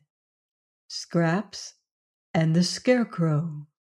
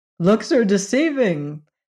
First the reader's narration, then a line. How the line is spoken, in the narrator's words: declared the shaggy man, laughing